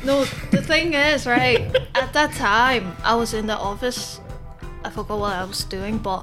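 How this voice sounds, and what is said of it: Chinese-accented English. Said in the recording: “Chinese accent is so perfect... It's so good... Barely strong, only you don't realize.”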